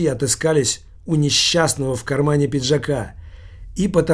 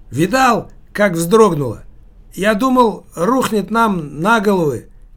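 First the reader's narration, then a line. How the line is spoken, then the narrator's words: Drunk little man shouting. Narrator (Russian): кричал один из пьяниц, маленький мужичок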